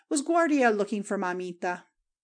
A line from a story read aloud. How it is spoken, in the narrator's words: the little Guardia crowed and laughed